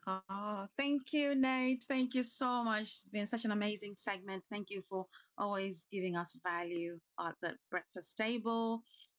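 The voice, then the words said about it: London accent. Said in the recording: “your London accent”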